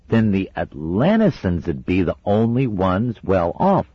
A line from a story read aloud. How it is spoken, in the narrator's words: said cheerfully